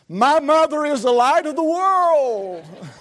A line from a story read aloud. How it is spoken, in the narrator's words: He cried out